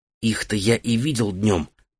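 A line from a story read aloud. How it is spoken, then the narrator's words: Whisper. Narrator (Russian): прошептал Мирен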